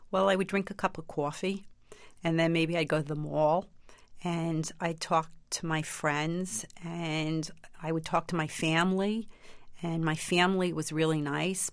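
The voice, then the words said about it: Strong New York accent. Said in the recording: “Talk to me like you used to talk. ... they're all from New York. More like that. ... that strong an accent”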